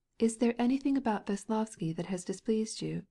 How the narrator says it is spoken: Kitty, timidly smiling, asked him

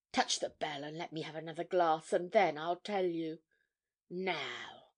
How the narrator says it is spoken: she went on more quietly

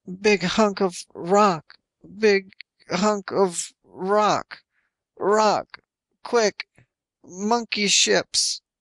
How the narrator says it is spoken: They gave him an injection of Herodyne to quiet him down, all he could manage was

